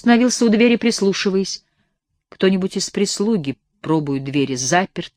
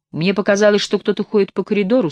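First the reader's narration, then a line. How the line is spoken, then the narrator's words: Plain. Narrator (Russian): сказал он профессору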